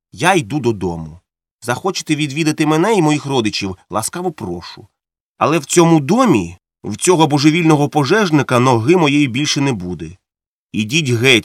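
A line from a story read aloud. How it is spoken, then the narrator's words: Calm. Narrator (Ukrainian): спокійно сказав Монтег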